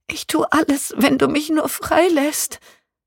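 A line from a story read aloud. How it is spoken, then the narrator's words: Pleading woman. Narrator (German): flehte sie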